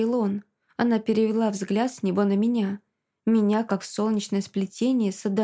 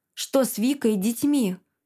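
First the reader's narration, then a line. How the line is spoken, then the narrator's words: Sharp question. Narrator (Russian): спросил я резко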